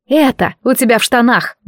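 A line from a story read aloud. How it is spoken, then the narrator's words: Grumbled. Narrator (Russian): буркнула я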